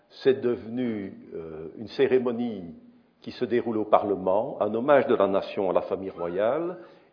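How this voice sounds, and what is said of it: Belgian Brussels French accent. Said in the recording (French): “j'ai un accent belge ... Cet accent bruxellois”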